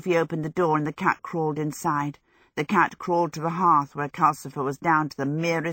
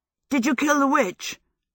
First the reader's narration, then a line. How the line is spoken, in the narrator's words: Michael asked eagerly